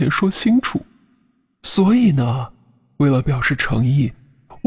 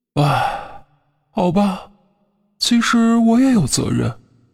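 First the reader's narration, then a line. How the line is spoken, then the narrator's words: Sighing. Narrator (Chinese): 徐德全又叹了口气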